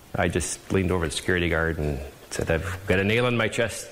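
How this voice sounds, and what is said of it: Wisconsin accent. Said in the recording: “You totally tell this guy's from Wisconsin, too. ... The accent's great.”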